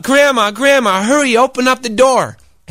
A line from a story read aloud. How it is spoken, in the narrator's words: He called out